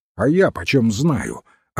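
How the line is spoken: Snapping back. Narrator (Russian): огрызнулся Флут

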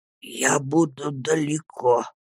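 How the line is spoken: Old man quietly repeating to himself. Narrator (Russian): словно про себя тихо повторил старик

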